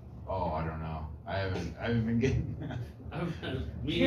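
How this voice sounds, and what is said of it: Usual voice. Nothing is said of it.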